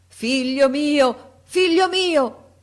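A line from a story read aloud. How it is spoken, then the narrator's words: King shouting. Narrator (Italian): gridò il re Egeo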